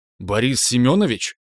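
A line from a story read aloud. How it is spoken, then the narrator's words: Somewhat nervous exclamation. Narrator (Russian): несколько нервно воскликнул я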